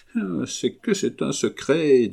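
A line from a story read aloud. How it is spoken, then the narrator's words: Low voice. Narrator (French): dit à voix basse son ami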